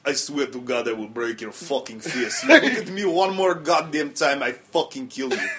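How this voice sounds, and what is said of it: Put-on Russian accent. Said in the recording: “There you go. You know? Yeah, that's more Russian. ... Yeah, that's got a little more.”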